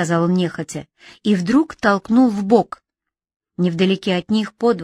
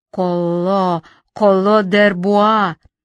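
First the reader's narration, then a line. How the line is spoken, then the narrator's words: Several voices, spreading hiss. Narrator (Russian): сказала сразу несколько голосов около Шталя, и названное имя шипением прошло в отдаленные концы двора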